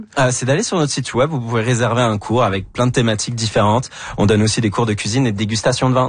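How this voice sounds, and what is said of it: Non-Québécois French accent. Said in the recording (French): “vous êtes Québécois, malgré l'accent.”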